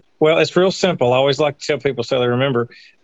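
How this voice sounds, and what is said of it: Mississippi accent. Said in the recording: “I don't want people to have to guess your accent. ... I live in Tupelo, Mississippi”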